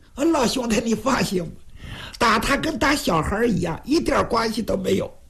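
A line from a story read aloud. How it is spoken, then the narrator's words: Playful, grinning. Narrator (Chinese): 徐良仍然是嬉皮笑脸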